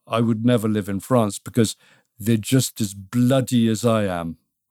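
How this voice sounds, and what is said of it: Put-on French accent. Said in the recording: “it's a great French accent there you got”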